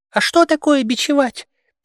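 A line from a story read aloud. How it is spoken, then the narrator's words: Embarrassed squeak. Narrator (Russian): пискнул какой-то черныш и смутился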